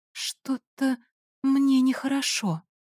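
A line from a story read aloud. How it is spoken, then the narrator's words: Weak voice. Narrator (Russian): я слабым голосом сказала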